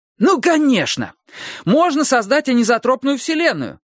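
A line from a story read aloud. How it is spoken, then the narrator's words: Bursting, eager shout. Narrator (Russian): выкрикнул Трурль, который не в силах был больше молчать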